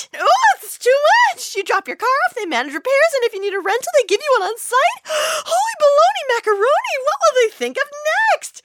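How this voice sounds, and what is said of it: Overwhelmed, panicky character voice. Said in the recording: “my impression of an easily overwhelmed person”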